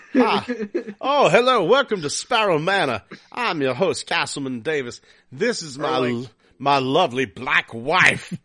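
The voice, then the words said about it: Put-on Southern accent. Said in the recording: “I started speaking with a southern accent”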